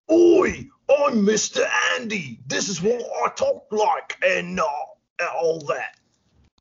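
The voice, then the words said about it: Failed attempt at Australian accent. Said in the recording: “I know you're trying to do Aussie accent, but you just sound like Russell Brand or something.”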